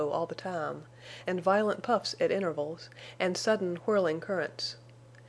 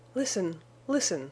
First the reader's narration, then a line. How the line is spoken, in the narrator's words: cried Bess, with her lips close to Venter's ear